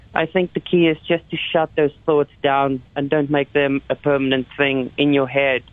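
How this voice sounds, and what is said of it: Non-Canadian foreign accent. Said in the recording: “we can we can obviously hear by your accent that even though you live in Calgary, that's probably not your your first uh, port”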